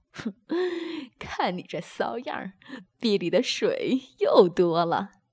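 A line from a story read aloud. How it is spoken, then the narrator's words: Laughing. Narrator (Chinese): 宋明笑道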